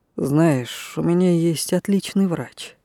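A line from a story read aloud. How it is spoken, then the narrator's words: Quiet. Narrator (Russian): сказал он негромко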